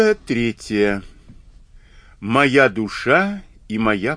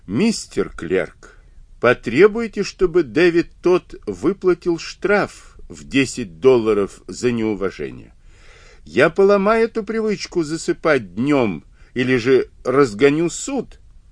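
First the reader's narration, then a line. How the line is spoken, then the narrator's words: Startled exclamation on waking. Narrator (Russian): Неожиданно очнувшись, он воскликнул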